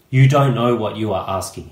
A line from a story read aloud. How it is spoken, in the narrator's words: says